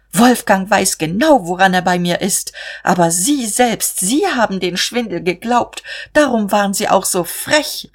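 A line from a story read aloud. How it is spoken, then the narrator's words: Called out. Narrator (German): rief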